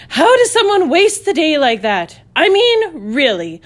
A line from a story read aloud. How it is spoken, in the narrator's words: Dwayne would reply, followed by two loud snorts